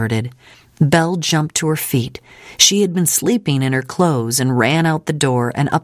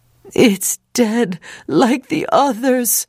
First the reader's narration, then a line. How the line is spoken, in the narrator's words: Moses wailed